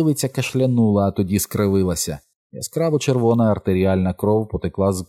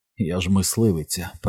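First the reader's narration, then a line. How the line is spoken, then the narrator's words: Contemptuous whisper. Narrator (Ukrainian): презирливо прошепотіла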